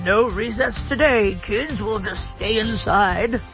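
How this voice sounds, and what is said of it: Impression of a crusty school principal. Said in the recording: “That was quite the impression there. ... Old principal or something? ... I was going to say it was the principal. ... Some of them were more crusty than others.”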